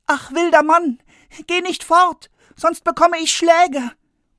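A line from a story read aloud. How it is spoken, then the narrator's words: Frightened boy calling after. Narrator (German): Der Junge aber bekam Angst und er rief ihm nach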